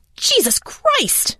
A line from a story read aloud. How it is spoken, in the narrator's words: I screamed